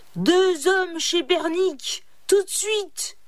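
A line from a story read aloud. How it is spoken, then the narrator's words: Man yelling. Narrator (French): hurla-t-il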